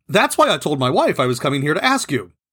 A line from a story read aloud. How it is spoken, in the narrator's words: He quickly added